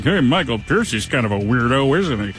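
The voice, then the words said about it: Imitates another person's voice. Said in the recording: “That's a great Chris impression”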